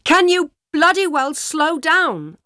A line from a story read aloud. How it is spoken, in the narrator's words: shouted to the driver